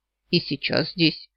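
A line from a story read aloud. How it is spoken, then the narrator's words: Snorting. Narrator (Russian): хмыкнул, добавил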